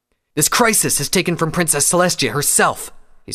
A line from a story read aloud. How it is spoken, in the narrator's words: said angrily